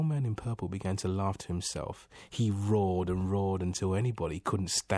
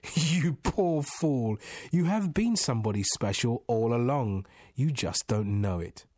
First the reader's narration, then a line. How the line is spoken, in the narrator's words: The old man laughed and said